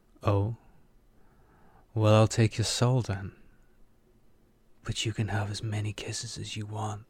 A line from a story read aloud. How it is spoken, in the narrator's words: Aki said, whispering the last into Kiva's ear